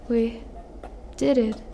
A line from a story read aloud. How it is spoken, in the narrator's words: mumbled